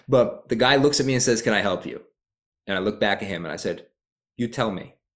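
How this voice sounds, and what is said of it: Slight Rhode Island New England accent. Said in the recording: “I have a little bit of a Rhode Island accent... I'm originally from Providence... this New England accent”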